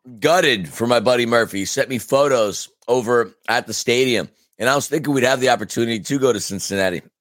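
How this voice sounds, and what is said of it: Hoarse, fading voice. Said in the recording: “I really am losing my voice.”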